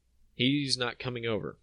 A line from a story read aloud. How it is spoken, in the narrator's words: I said